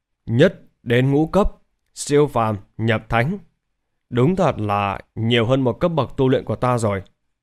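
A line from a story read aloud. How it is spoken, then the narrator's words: Muttering. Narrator (Vietnamese): Lý Bình An lẩm bẩm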